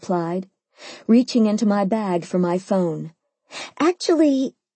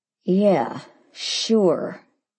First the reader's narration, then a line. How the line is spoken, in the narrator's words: he said through clenched teeth